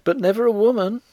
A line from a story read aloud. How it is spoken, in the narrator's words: cried the girl